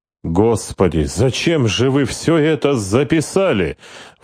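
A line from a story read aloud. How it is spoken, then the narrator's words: Exclaiming. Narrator (Russian): воскликнул Тибор Олд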